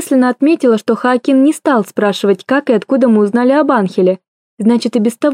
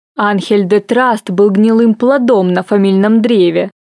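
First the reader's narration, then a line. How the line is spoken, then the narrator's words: Retort through gritted teeth. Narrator (Russian): парировал Хоакин сквозь зубы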